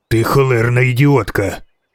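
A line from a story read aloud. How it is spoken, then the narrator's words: Hissing. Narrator (Ukrainian): просичав відьмак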